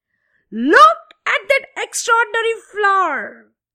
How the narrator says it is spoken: the little girl shouted

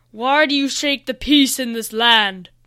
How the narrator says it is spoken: the white dragon boomed

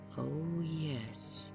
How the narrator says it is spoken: murmured Martha Pym faintly

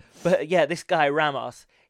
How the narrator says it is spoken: he shouted right in her face

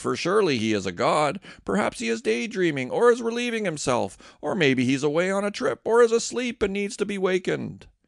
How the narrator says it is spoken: he scoffed

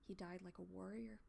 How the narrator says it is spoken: Leafdapple murmured

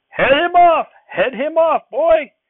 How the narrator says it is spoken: a man yelled

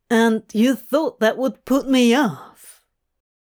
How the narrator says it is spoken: Aziraphale let out a breathy chuckle at Crowley's bafflement

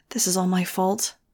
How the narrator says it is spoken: I muttered

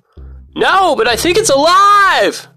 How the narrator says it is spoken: I yell back

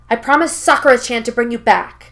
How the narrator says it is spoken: Naruto growls out

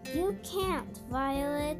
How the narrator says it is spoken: shouted Henry from the fence

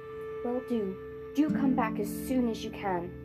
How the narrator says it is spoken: said Diggory

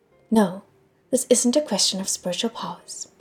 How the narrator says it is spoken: Pei Ming said

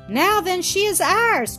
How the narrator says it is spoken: cried I

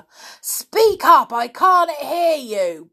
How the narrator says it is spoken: bellowed the old man, as if it was Peter that was deaf and not himself

